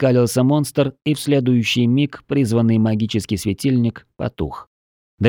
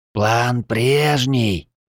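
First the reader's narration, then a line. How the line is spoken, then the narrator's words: Hissed. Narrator (Russian): Прошипел Драксал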